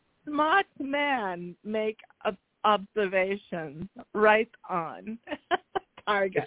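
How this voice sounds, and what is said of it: Unplaceable put-on accent, Indonesian-Australian-New England. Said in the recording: “I'm trying one of my accents. Don't ask me what it is. ... I have no clue what accent that is. ... That's some kind of stoned Indonesian, Australian dude. ... It sounds like a gay New Englander, like a gay New England guy.”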